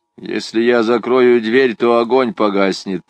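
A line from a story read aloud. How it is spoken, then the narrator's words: Grumbled. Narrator (Russian): пробурчал он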